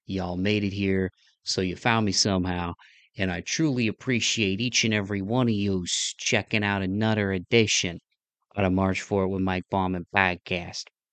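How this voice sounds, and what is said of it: Slightly lower, under-the-weather voice. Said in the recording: “my voice is a little bit different. It's a little lower, not quite a baritone ... I'm a little under the weather still”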